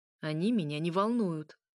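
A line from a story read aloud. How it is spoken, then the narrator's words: Snorting. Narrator (Russian): фыркнул светлый князь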